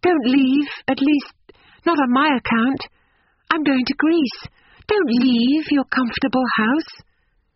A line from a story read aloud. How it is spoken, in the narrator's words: cried the girl